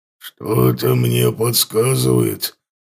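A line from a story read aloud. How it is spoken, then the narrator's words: Low muffled growl. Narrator (Russian): прорычал Лотар глухо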